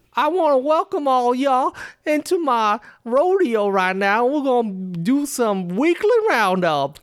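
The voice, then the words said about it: Put-on Western cowboy accent. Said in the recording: “Can you do like a Western accent? Yeehaw, partner.”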